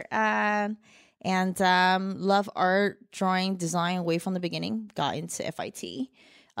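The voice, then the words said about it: Mixed Chinese and New Jersey accent. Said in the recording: “born in Shanghai, China, raised in Jersey. So, got a bit of a mixed accent here.”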